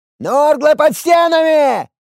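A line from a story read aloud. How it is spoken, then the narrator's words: Distant yell from watchtower. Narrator (Russian): заорал один из деревенщин, который стоял на дозорной башне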